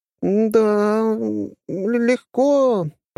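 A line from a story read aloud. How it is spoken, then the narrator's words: Drawn-out, reminiscing. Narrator (Russian): протянула Алисия, вспоминая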